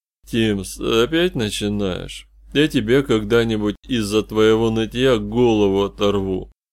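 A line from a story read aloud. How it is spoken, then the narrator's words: Muffled reply. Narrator (Russian): Глухо отозвалась вторая фигура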